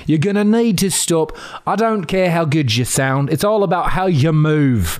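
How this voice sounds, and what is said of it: Bad put-on British accent. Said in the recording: “He had a bad British accent, listener. It was very bad.”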